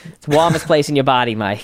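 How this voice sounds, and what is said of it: Boston accent imitation of dad. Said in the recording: “I don't know why I give him a New York accent. He's a Boston accent. He's like”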